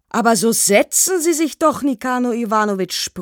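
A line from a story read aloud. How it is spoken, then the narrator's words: Unembarrassed bellow. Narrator (German): brüllte der Mann, nicht im geringsten verlegen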